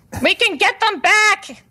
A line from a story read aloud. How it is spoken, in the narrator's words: I yell again